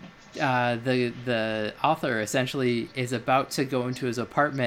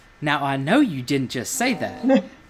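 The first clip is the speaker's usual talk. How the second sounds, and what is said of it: Put-on Georgia Southern accent. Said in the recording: “That's Georgia accent”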